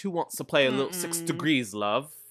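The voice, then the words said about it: Put-on British accent. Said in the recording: “I'm still British ... His accent.”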